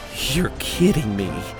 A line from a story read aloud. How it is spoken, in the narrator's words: I said under my breath